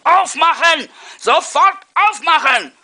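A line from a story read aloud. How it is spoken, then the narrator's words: Furious roaring. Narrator (German): wütend brüllte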